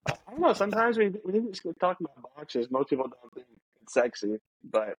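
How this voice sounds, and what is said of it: Usual voice. Nothing is said of it.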